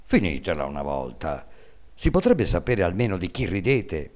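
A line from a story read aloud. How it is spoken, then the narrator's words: Resentful father's voice. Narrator (Italian): Il babbo disse allora con voce risentita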